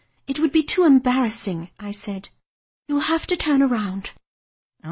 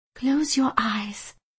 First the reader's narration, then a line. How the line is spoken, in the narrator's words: I whispered